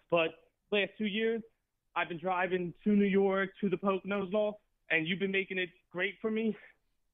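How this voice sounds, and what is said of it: Out of breath, breathy speech. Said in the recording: “sorry, I'm out of breath. I was just walking up a hill”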